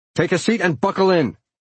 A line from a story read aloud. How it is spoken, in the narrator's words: shouted